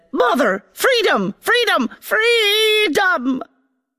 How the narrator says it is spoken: The army roared

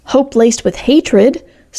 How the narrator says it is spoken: snapped Alice May

